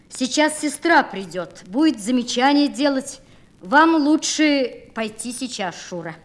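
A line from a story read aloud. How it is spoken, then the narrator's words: Loud, after voice cracked. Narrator (Russian): рассердившись на свой сорвавшийся голос, и громко сказал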